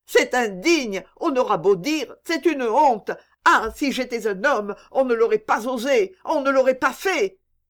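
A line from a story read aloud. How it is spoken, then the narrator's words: Suppressed howl. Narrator (French): dit-il avec un hurlement contenu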